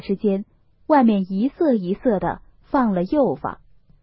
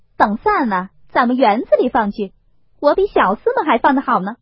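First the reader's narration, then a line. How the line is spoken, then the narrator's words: Laughing. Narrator (Chinese): 凤姐儿笑道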